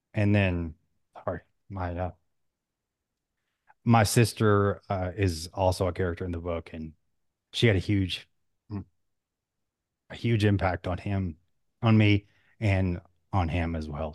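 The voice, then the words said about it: Choked up, emotional voice. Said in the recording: “You got a little choked up there.”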